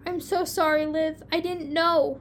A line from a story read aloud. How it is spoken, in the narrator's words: Lucy nearly cried with relief